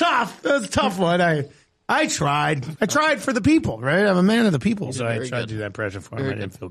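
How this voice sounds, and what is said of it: Usual voice. Nothing is said of it.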